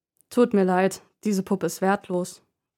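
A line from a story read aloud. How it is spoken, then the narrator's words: Plain. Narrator (German): sagt der Fremde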